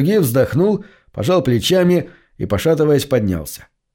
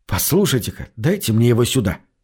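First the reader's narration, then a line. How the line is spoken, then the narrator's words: Secretive whisper. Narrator (Russian): шепнул я, чтобы не услышал бармен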